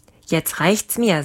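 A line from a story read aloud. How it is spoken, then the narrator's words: Plain. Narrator (German): sagte der Lange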